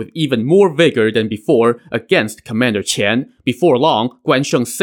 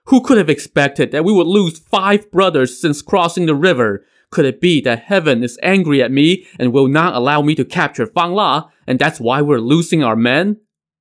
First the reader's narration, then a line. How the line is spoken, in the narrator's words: Song Jiang broke down and wailed